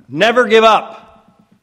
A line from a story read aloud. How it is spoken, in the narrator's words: Authority rang in Churchill's voice as he shouted